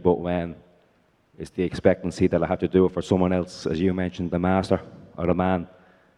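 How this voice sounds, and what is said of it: Irish brogue accent. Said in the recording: “your brogue there has done me in”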